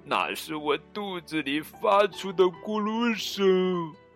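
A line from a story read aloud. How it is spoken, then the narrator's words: Doleful, tearful. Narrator (Chinese): 卡梅利多哭丧着脸说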